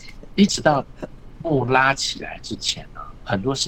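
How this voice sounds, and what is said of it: Usual voice. Nothing is said of it.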